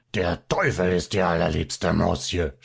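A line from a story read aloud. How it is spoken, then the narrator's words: Small one, furious shouting. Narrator (German): schrie der Kleine ganz erbost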